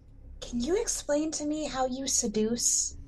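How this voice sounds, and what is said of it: Whispered line. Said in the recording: “kind of whisper to her”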